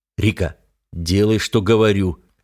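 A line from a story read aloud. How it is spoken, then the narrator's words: Guttural growl. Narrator (Russian): Гортанно зарычав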